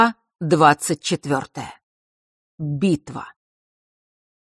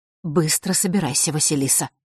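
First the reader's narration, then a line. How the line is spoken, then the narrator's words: Quiet, hurried command. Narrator (Russian): тихо и торопливо велела она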